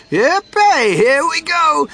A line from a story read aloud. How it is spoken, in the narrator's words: Grandpa Joe shouted